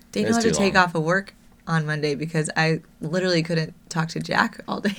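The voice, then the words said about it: Hoarse, nearly lost voice. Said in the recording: “I've had no voice since last Saturday ... I'm sorry that my voice sounds like this”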